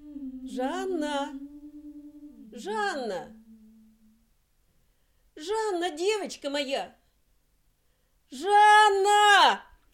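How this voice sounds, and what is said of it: Shouting a name loudly. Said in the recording (Russian): “Не кричи, не кричи”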